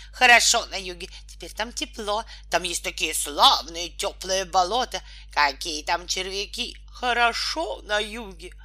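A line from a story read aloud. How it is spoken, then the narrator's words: Deafening shouting. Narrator (Russian): Они так кричали, что почти оглушили лягушку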